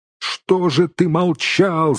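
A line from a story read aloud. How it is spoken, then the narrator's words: Many shouting in chorus. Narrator (Russian): закричали все хором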